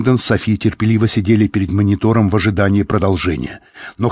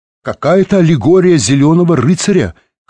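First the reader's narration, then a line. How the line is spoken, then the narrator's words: Shout. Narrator (Russian): крикнул он библиотекарше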